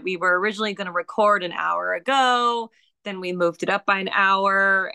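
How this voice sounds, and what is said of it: Hoarse voice. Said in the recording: “my voice is kind of hoarse ... it hasn't fully recovered yet”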